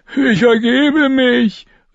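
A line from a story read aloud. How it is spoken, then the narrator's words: Quick call. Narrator (German): rief sofort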